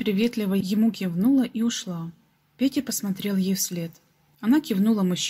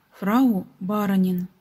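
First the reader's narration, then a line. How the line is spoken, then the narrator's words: Plain. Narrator (Russian): так сказали мужчины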